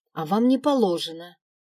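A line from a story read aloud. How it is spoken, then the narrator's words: Snapping back. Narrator (Russian): огрызнулась горничная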